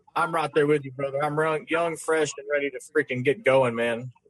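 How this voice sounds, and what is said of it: Regional accent near Oklahoma. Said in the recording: “with that accent you got, you sound like you're close enough to Oklahoma”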